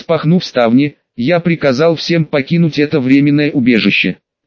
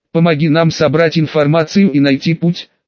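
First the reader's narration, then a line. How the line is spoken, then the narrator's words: Plain. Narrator (Russian): сказал я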